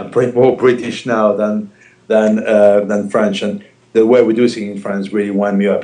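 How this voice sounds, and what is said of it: French accent. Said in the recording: “I've lost except for my accent”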